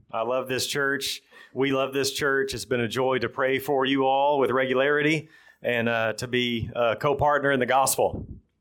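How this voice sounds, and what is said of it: Thick Texan accent, fast speech. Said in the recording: “Texans have pretty bad English to begin with. And we have a pretty thick accent as well. And we talk too fast.”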